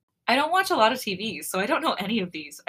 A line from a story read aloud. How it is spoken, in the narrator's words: I chuckle, feeling a bit embarrassed